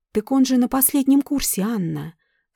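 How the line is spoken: Calm reply. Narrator (Russian): спокойно ответила Зоя

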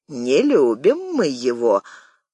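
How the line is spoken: Snide remark. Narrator (Russian): ехидно заметил Игорь

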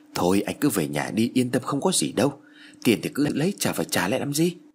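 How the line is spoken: Soothing advice. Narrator (Vietnamese): Kha bèn khuyên

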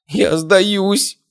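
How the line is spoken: Moaned. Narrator (Russian): простонала она

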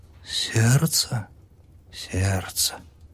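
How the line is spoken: Whispered. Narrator (Russian): Прошептала она

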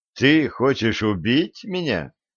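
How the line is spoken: Showy burst of laughter. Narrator (Russian): напоказ расхохотался

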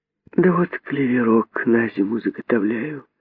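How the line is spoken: Sighing reply. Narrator (Russian): ответила она, вздохнув

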